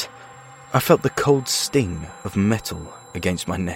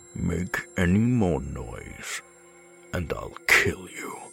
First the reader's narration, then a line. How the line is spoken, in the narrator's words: growled